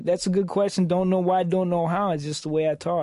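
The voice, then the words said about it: Slow New York accent. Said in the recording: “Why do you have a New York accent ... Your co-host sounds like he's from New York ... I've got a slow draw.”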